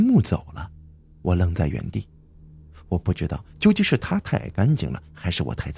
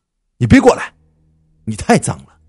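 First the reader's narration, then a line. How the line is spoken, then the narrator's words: Firm shout. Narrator (Chinese): 用毋庸置疑的语气喊道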